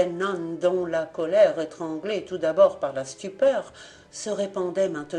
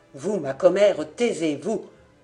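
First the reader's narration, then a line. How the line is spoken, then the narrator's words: Curt command. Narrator (French): commanda sèchement Kerenglas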